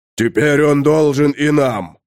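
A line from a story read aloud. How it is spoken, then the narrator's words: Bark. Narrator (Russian): рявкнул Тулгорд Мудрый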